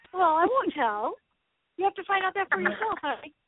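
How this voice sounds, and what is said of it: Cute accented voice. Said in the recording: “her little accent ... Your voice is so cute ... I want to hear that accent again”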